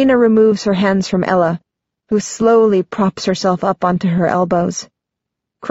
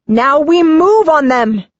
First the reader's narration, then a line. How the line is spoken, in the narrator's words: I yell at Creighton